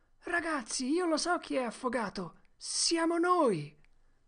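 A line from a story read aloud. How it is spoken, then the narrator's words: Excited sudden realization. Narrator (Italian): un'idea rivelatrice balenò nella mente di Tom e lui esclamò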